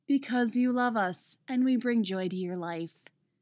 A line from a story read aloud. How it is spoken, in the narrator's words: Jess deadpans